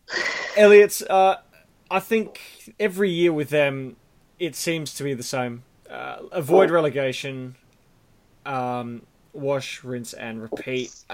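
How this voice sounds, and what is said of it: Hoarse, strained, fading voice. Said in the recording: “I do apologise if A, I'm losing my voice”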